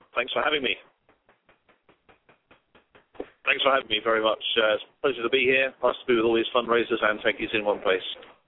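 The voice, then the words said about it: British accent. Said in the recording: “as people may have picked up with your accent, that you're not an American. You're not you're from the UK”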